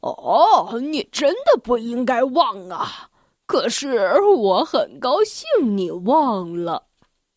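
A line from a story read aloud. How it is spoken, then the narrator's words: Laughing. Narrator (Chinese): 贪吃先生笑着说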